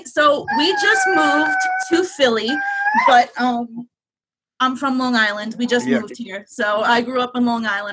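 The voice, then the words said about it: New York accent. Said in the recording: “You got a little bit of a New York accent there.”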